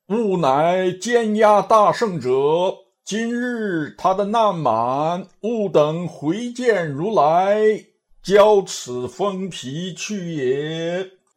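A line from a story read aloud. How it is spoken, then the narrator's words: Calling out. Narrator (Chinese): 叫道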